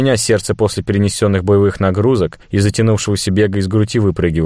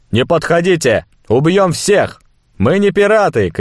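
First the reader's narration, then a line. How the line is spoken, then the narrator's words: Shout. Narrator (Russian): крикнул я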